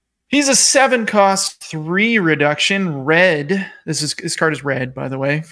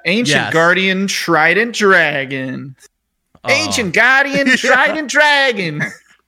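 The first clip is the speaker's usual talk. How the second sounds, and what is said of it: Cartoon character voice impression. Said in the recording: “That was my Joey Wheeler impression. ... It was pretty bad.”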